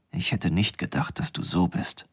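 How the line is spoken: Whisper. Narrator (German): Er flüsterte

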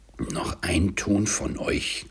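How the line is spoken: Growled. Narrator (German): knurrte

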